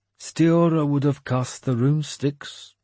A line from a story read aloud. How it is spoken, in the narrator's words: he said wistfully